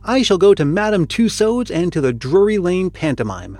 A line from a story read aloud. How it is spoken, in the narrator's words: said young fellows